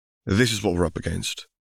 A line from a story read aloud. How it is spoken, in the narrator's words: murmured